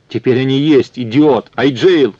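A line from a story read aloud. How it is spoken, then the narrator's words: Shouted. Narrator (Russian): крикнул он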